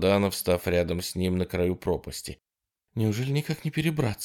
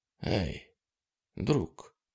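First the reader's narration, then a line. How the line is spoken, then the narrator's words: Quiet. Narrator (Russian): тихо сказал Курт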